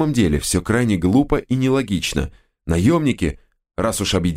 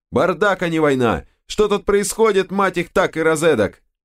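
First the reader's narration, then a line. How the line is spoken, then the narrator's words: Loud. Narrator (Russian): кто-то, кажется, Макс, громко сказал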